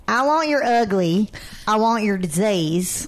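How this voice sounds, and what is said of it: Put-on Florida accent. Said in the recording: “Is that like Jersey or Florida? That was definitely Florida. ... That was definitely Florida.”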